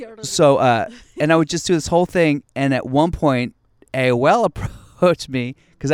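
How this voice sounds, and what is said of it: Usual voice. Nothing is said of it.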